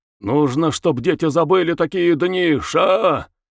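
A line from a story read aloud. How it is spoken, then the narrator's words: Barked. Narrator (Russian): Рявкнул он на женщину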